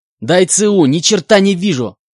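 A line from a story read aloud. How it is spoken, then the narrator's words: Shouted. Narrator (Russian): выкрикнул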